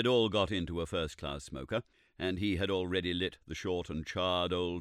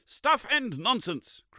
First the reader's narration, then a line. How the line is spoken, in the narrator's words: cried Summerlee again, with quite unnecessary violence